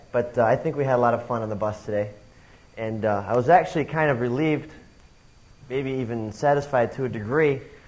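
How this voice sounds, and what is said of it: Slightly hoarse voice. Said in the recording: “My voice is getting a little bit hoarse,”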